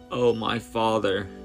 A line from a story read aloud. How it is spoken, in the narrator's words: Jesus cried out from his soul